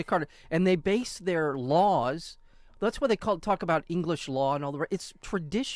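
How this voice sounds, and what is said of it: Usual voice. Nothing is said of it.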